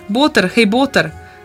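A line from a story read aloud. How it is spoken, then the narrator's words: Calling out. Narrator (Slovenian): zaklical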